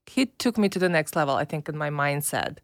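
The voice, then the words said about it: Eastern European accent. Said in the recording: “what your accent is. You're from Russia ... I'm from Belarus”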